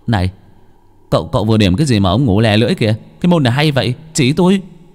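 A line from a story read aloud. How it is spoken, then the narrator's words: Shouting. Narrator (Vietnamese): la lên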